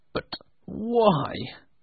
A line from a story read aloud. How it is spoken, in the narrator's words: asked nervously